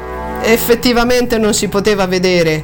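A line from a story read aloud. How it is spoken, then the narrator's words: Admitting, laughing. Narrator (Italian): ammise Ortiz, e rise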